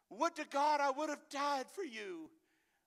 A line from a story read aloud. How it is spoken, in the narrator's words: he cried